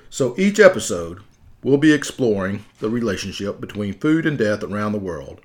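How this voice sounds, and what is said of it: Southern accent. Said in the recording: “Maybe it's my southern accent that's not the easiest on some words”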